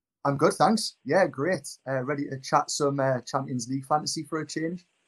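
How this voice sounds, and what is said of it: Newcastle (Geordie) English accent. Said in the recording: “It's nice to have someone else with the same accent as us. I feel like people might think we only invite exclusively people from Newcastle”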